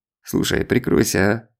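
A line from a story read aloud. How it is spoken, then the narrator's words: Grumbled. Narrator (Russian): проворчал он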